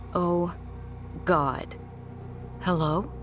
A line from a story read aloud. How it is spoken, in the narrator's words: I finally muttered into the phone